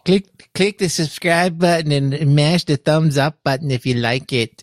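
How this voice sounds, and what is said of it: Odd put-on accent. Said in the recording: “I don't know what the hell accent that was”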